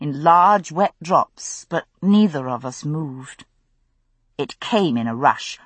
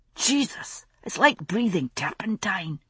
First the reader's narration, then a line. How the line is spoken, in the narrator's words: Ian wheezed, as a fresh wave of the stultifying reek washed over us